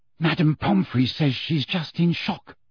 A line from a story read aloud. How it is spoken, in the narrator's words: whispered Hermione